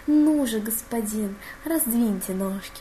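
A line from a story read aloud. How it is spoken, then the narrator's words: Near purr. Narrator (Russian): почти промурлыкал Себастьян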